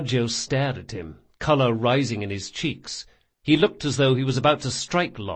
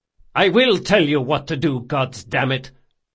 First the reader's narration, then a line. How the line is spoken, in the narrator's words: Locke spat